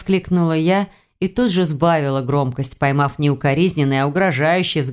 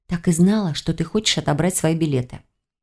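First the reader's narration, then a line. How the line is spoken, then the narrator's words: Whispered. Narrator (Russian): сказала шепотом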